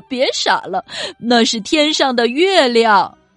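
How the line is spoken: Little monkey laughing. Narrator (Chinese): 夜晚的小猴子笑着说

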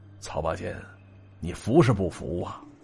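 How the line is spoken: Slow. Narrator (Chinese): 老曹缓缓说了个

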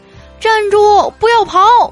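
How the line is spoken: Loud shout. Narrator (Chinese): 有人大喊一声

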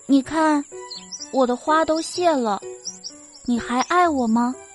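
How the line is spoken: Sad voice. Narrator (Chinese): 小树先说话了，它的声音有些悲哀

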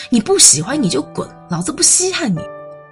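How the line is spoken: Angry yelling. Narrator (Chinese): 男生拒不配合，甚至冲他吼

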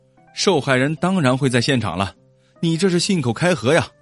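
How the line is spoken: Angry, loud. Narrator (Chinese): 库克气的是脸红脖子粗，大声的说道

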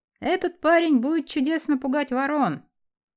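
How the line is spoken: Plain. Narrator (Russian): сказал фермер

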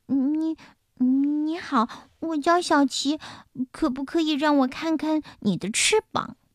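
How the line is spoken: Stammering. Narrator (Chinese): 达芬奇……结结巴巴地说

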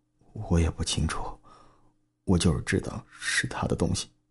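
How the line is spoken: Numb, low answer. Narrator (Chinese): 小刚麻木的 低声的回答我

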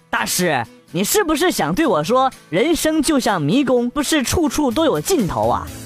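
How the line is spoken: Calm old monk. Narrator (Chinese): 老僧淡淡回答说

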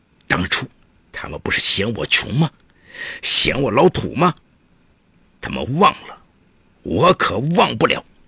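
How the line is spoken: Snorting, through gritted teeth. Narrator (Chinese): 史德云鼻子哼了一声，一字一句咬牙切齿地说

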